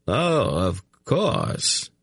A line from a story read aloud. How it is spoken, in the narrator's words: Tzedi murmured